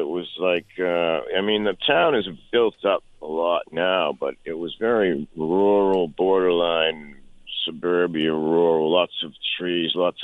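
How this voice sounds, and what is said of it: Boston accent. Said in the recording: “still got that good Boston accent”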